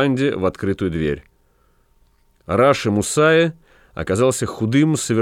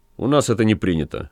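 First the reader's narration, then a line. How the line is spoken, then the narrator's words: Cold. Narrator (Russian): холодно сказал бригадир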